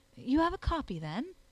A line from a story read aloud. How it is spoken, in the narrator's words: I asked eagerly